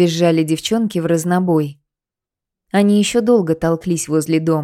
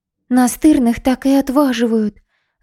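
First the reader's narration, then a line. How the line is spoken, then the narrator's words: Sighed. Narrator (Russian): вздохнула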